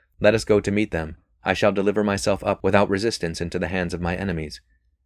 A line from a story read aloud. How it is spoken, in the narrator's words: He spoke calmly, said